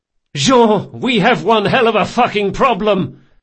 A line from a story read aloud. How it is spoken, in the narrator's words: yelling as he came